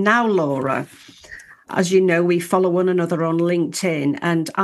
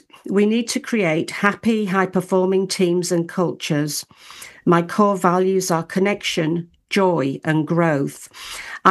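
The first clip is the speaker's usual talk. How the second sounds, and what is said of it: Careful reading-aloud voice. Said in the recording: “my best reading voice”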